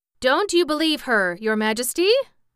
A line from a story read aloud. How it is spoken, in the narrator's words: cried Jack